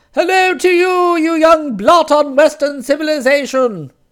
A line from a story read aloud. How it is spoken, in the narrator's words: She responded in the ringing tones with which she had once rebuked hounds for taking time off to chase rabbits